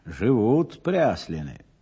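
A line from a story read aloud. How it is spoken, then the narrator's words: Relieved sigh. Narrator (Russian): Анна облегченно вздохнула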